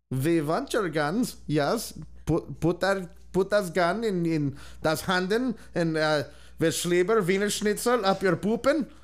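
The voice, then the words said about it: Mock German accent. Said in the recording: “That's my German right there.”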